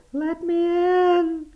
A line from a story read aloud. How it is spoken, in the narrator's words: Still it wailed